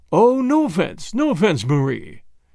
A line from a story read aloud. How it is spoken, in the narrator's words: said Pereira in his smooth, rich voice